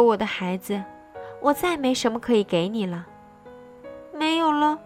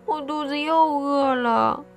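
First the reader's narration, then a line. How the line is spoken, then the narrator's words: Whining, near tears. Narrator (Chinese): 匹诺曹接着又哭也似的说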